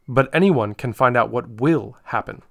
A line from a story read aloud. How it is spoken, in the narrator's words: said Aslan